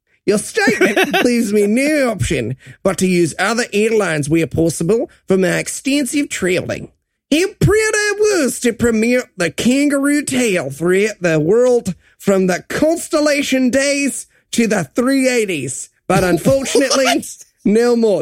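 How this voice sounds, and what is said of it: Reads a quote in put-on accent. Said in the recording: “I know I did my accent there”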